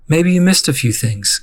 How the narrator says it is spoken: Kit said kindly

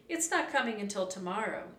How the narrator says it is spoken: Annie said quickly

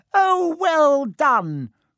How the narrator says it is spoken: cried Professor Flitwick

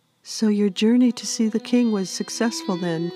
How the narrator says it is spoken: Fiona anxiously asked

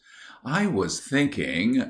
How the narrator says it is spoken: Mary Elizabeth sighed

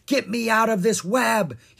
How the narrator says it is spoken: shouted

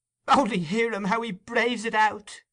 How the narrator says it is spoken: cried the young woman

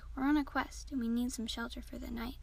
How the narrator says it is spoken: Junpei said in her nicest tone possible

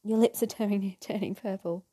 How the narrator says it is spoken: she giggled

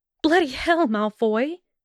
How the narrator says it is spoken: she scolded over her flustered wheezing

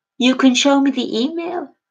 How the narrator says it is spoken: said in what I hoped was not too incredulous a tone of typing as I shook with laughter

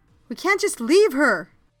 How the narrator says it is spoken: shouted

